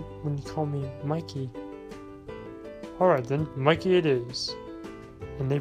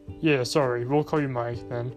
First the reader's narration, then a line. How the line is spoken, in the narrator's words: Mike said